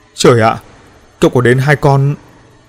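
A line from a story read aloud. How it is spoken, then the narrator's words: Stammered tensely. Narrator (Vietnamese): Ánh mắt của An Ninh cũng trở nên căng thẳng, lắp bắp nói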